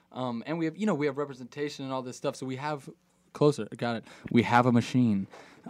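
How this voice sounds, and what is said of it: Deep, polished radio announcer voice. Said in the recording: “Whoa, radio voice. ... My radio voice, that is.”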